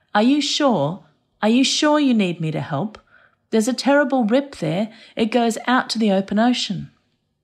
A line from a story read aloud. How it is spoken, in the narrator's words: put my palms to my mouth and I called out